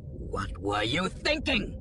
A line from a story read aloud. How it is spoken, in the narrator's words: he demanded, with a sudden shout